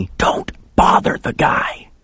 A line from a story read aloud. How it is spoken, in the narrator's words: he hissed